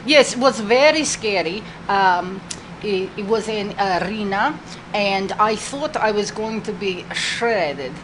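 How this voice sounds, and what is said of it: Russian accent. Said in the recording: “because you're both are Russian. It sounds like the same dialect. Lana from WWE.”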